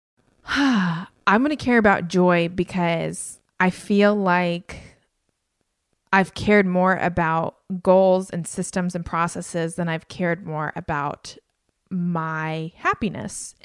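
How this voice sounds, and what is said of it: Emotional, choked-up voice. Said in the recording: “I'm actually getting emotional right now”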